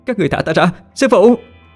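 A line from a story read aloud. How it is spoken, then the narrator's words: Screaming. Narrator (Vietnamese): tiếng gào thét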